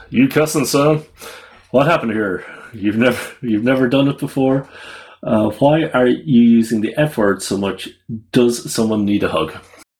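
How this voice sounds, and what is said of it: American cowboy accent. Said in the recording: “I have to say that with an American cowboy accent.”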